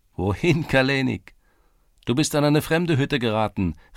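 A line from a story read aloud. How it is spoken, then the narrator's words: Laughing girls calling behind. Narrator (German): rief lachend eine Mädchenschar in seinem Rücken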